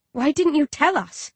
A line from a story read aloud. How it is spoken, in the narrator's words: He sighs